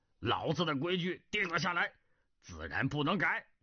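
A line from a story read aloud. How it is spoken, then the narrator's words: Angry. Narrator (Chinese): 南海恶神怒道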